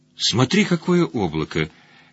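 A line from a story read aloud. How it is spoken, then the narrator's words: Quiet. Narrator (Russian): тихо сказал Блуд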